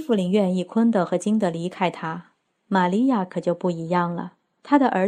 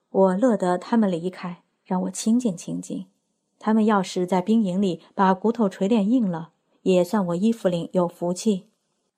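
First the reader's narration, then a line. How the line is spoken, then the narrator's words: Sighing. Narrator (Chinese): 他叹了一口气，说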